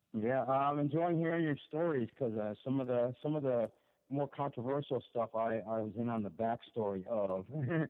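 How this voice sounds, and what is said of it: Hoarse voice. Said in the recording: “I'm a little bit hoarse”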